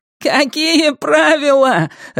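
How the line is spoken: Laughing. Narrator (Russian): рассмеялся Дэйви

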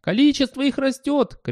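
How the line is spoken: Radio shouting. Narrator (Russian): кричало радио

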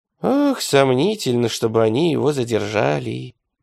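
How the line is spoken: Sighing. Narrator (Russian): вздохнул Лука

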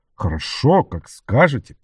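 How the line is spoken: Grumbled. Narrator (Russian): проворчал он

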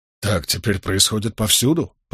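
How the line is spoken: Muttered. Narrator (Russian): пробормотал Болейн

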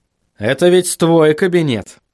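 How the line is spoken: Cold. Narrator (Russian): холодно произнес Вильям

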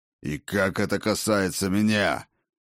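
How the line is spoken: Growling. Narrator (Russian): прорычал Один

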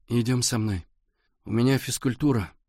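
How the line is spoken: Glum objection. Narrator (Russian): уныло возразил Валя

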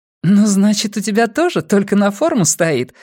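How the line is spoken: Gentle laughing. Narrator (Russian): смеялась Нина, но не обидно

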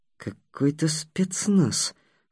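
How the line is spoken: Through gritted teeth. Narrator (Russian): сквозь зубы проговорил Такеда

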